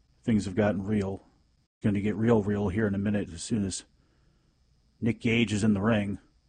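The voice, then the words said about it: Solemn WWE announcer voice. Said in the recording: “my tragic WWE announcer voice”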